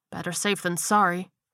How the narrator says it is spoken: he muttered to himself

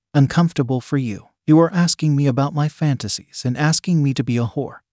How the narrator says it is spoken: Hannah said in an irritated tone

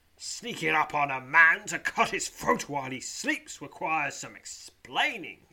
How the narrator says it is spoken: he snarls

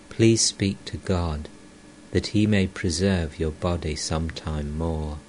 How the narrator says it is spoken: Rakhal, tenderly

